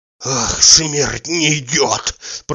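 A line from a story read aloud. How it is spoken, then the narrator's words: Wheezing. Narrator (Russian): прохрипел Захар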